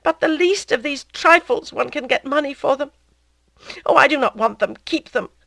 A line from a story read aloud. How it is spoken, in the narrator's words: she cried